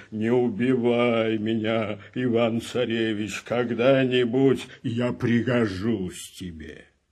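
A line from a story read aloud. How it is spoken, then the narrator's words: Bear speaking with human voice. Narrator (Russian): медведь вдруг и говорит ему человеческим голосом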